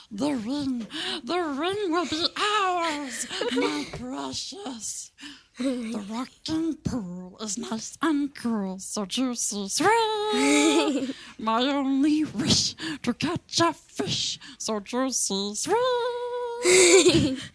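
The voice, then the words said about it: Lord of the Rings character voice. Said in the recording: “you did that voice. ... Lord of the Rings character ... you're really good at the voices.”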